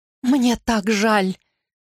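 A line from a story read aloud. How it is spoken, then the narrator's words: Speaking through tears. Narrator (Russian): сквозь слезы проговорила Анна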